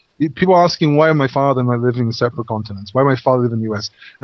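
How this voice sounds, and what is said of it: English accent. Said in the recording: “I don't have an American accent. My accent is English.”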